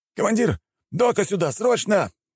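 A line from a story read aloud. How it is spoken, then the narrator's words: Group shouting. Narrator (Russian): прокричали они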